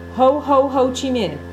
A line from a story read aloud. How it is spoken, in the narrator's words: shouting obscenities